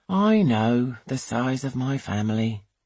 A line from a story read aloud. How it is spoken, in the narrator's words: he says wearily